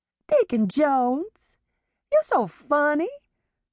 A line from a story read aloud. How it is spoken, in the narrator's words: Jezebel cooed